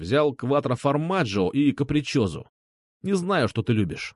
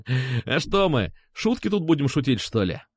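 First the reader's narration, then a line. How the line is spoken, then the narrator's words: Laughing. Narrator (Russian): засмеялся он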